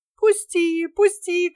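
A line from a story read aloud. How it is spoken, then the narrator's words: Shouting. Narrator (Russian): кричала она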